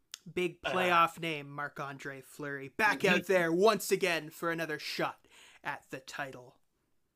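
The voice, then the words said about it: Dramatic announcer-style voice. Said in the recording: “Being all dramatic, I'll keep my dramatic voice on for a minute.”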